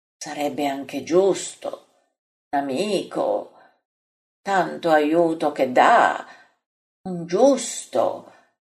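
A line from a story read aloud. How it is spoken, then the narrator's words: Murmured. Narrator (Italian): mormora Bartolomeo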